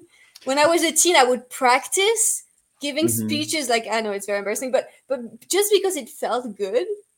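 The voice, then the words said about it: Non-native accented English. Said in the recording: “I still have a big accent”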